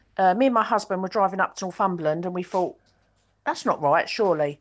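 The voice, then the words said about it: Kent or Essex English accent. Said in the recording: “I love your accent ... I'd say you're Kent or Essex. You sound like me.”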